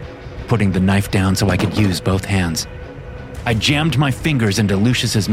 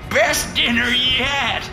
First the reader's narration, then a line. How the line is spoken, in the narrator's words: The madman cackled